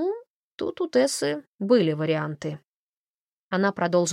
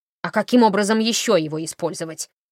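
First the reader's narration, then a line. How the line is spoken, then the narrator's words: Grumbling old woman. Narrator (Russian): проворчала старуха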